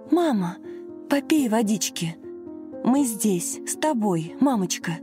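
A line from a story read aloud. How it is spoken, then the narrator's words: Anxious whisper. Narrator (Russian): взволнованно шептала Лена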